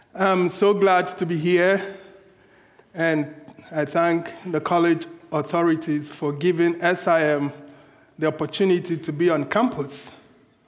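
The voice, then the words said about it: African accent. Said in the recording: “listen to a funny African accent ... it's not funny, it's authentic”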